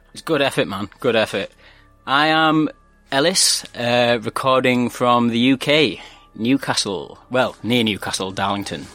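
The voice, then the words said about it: Regional British accent. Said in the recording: “Listen to that accent. That's beautiful.”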